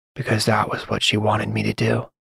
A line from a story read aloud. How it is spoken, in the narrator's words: Theo whispered softly to himself